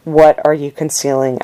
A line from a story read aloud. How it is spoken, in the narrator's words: I asked